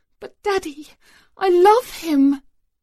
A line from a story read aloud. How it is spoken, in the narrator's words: Neem wailed